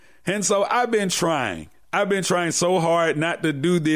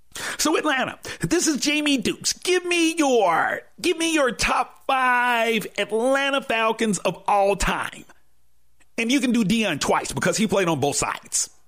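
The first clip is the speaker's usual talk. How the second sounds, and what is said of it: Imitates another person's voice. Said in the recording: “channel my inner Jamie Dukes ... my impersonation is spot on”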